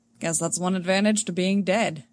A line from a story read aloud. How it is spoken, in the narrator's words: Han dryly says